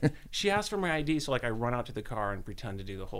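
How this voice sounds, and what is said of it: Usual voice. Nothing is said of it.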